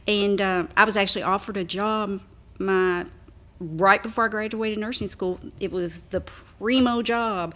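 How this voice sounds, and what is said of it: Small-town Kentucky accent. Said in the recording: “As you can probably tell by my accent, I'm not not a Louisvillian, ... but I am from a smaller town here in Kentucky.”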